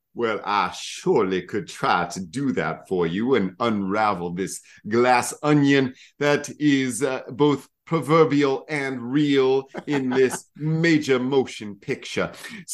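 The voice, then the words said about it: Benoit Blanc southern accent impression. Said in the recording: “I tried to do his accent. Benoit Blanc, his southern accent. ... in an accent”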